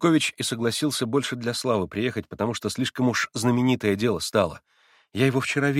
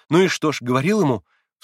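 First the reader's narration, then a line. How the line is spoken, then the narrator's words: Hurried, startled. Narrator (Russian): вскинулась торопливо Грушенька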